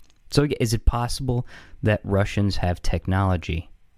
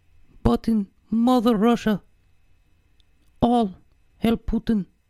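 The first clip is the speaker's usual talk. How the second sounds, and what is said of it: Put-on Russian accent, high voice. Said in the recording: “A Russian man, big man, and has voice like this ... It sounds much drunker when low voice. It doesn't sound drunk when ... high voice like this”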